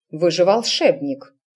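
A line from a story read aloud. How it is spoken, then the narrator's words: Stern mother. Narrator (Russian): строго указала матушка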